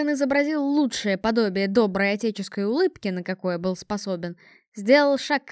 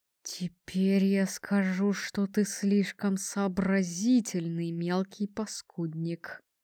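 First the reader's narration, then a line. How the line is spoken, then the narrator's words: Through clenched teeth. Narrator (Russian): процедил сквозь сжатые зубы Отхан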